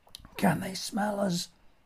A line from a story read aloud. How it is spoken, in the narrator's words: I whispered over his shoulder